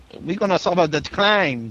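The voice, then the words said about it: Exaggerated stereotypical Asian accent. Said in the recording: “Doing a horrible, stereotypical Asian accent.”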